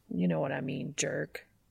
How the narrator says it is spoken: Dean mutters

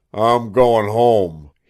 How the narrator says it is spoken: he said roughly

